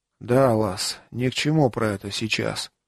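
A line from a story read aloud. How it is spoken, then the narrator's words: Grunted. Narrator (Russian): буркнул Варас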